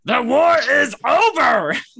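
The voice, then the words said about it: Admiral Ackbar character impression. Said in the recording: “heard you do an Akbar impression?”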